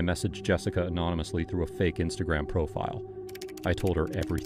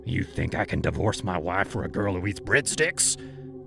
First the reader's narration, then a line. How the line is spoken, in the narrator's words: he growled